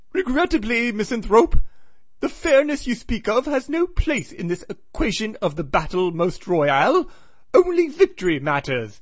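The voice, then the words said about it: Put-on English accent. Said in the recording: “They've got English accents that give me a hard time... maybe the accent isn't so hard. As always, I nailed it.”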